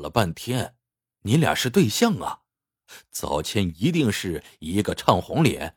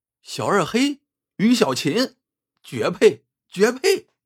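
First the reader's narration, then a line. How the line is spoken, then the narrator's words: Crowd shouting loudly. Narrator (Chinese): 周围接连对他俩高叫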